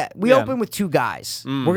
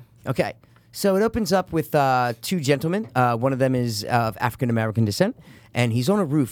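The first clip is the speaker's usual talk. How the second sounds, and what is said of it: Put-on British accent drifting Australian. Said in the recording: “We're going to do a little Mark Kermode ... British accent, go ... I know I'm getting to Australia, mate ... Very Australian”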